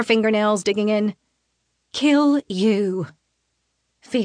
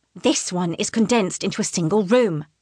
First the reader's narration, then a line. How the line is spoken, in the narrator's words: she hisses